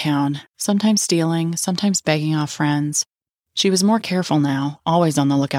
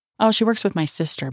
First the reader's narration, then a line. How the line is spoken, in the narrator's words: Dawn said